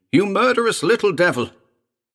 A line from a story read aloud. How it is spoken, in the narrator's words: Elliot screamed